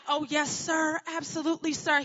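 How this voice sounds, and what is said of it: Thick put-on Southern accent. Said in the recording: “I'm putting on this really thick Southern accent. ... I don't know where this accent is coming from”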